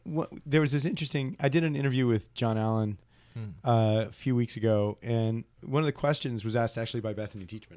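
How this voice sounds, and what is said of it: Hoarse, congested voice. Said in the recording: “my voice is all messed up, and I have a cold.”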